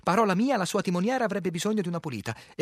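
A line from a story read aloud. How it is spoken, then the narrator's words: Livelier tone. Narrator (Italian): in tono più vivace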